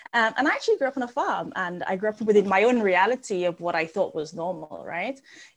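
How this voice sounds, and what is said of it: Caribbean accent. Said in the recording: “You can probably tell I have an accent. I grew up in the Caribbean”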